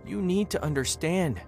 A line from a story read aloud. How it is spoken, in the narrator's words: she said, her voice now trembling